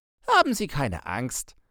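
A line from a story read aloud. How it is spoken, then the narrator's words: Reassuring, laughing. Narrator (German): beruhigte mich mein Begleiter lachend, als er meine Gebärde des Schreckens sah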